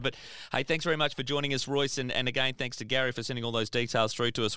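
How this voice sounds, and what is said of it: Hoarse, fading voice. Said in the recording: “lose my voice”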